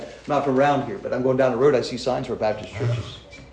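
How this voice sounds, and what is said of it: Southern Pennsylvania accent. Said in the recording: “You can obviously tell that I don't have the right accent ... I speak like I'm from Southern Pennsylvania. Maybe from Southern Pennsylvania speak a little weird.”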